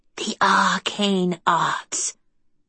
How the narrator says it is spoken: she whispered

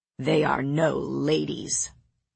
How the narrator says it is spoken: Lord Nolan sneered

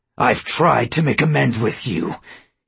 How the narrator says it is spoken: he hissed

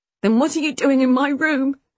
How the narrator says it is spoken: I asked, choking inside

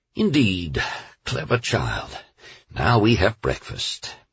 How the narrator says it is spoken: The captain said in an even voice into which he managed to inject a tone of delight

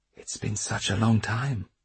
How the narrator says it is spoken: she murmured

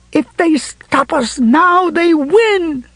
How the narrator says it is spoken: she screamed

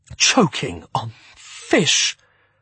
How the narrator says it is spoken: exclaimed, shakily

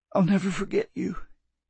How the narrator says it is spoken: he said, choking back a sob

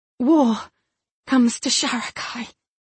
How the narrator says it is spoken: Chada said breathlessly

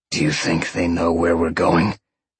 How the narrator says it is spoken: Sean grunted

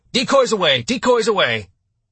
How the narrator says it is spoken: the tactical action officer shouted

